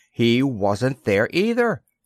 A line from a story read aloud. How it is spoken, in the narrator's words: cried out in amazement